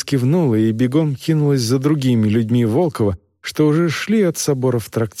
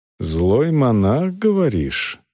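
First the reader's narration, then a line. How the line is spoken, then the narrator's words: Thoughtful question. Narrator (Russian): задумчиво переспросил он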